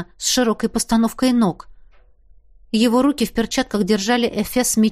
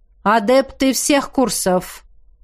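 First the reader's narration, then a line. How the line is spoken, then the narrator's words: Loud rector's voice. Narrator (Russian): раздалось громко голосом ректора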